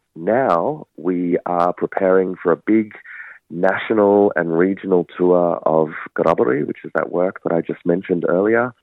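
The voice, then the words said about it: Voice sounds sick. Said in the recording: “You can probably hear in my voice, I got a little bit sick”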